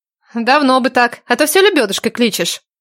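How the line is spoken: Burst of laughter. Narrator (Russian): Схохотнула Надежда

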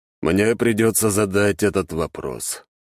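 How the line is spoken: Sighing. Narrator (Russian): вздохнул император

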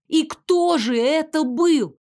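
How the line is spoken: Near full-voice shout. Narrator (Russian): чуть ли не в полный голос закричала я

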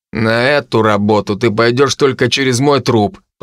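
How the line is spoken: Through gritted teeth. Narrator (Russian): процедил Генри

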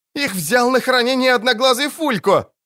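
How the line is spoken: Shrill squeal, feigned bravery. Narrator (Russian): взвизгнула Ангулема, пытаясь прикинуться, будто не боится

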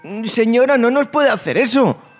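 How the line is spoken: Two girls pleading in unison. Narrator (Spanish): suplicaron al unísono las dos chicas

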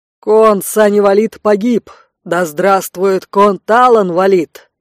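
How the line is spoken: Loud barked shout. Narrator (Russian): гаркнул Рэй

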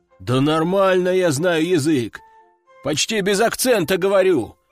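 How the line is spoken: Big man exclaiming. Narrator (Russian): воскликнул здоровяк

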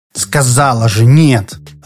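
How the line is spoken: Irritated. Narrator (Russian): раздраженно отозвалась прелесть

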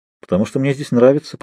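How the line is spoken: Muttered. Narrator (Russian): пробормотал я

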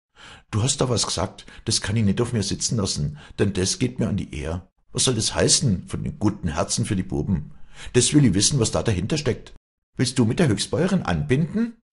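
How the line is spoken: Loud angry call. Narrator (German): rief Walli laut

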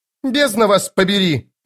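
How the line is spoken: Barked. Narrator (Russian): рявкнула госпожа Зависть

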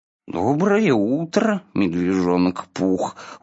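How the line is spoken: Gloomy reply. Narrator (Russian): уныло ответил Иа

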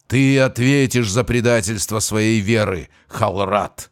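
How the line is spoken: Growling ancient being. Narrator (Russian): прорычал в ответ древний

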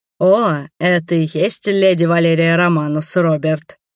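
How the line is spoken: Deep male voice. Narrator (Russian): сказал басовитым голосом один из мужчин

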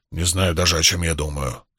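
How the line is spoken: Grumpy mutter. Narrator (Russian): сварливо пробурчал Уно

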